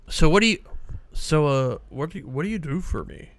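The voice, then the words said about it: Imitates another person's voice, hesitant. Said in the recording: “my Elon impression. He's a lot of uhs.”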